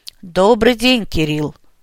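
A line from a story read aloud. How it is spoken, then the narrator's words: Quiet strong rumbling priest. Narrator (Russian): Знакомый мне тихим, но сильным голосом пророкотал священник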